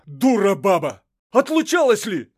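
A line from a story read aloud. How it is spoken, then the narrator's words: Shouting. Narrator (Russian): кричал Ерема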